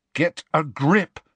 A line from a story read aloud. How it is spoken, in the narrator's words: said Harry sternly